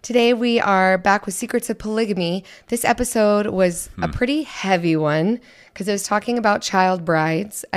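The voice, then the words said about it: Quiet, failing voice. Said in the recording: “pre-apologize for my voice. If you can't hear me, I'm losing my voice. ... If I sound super quiet.”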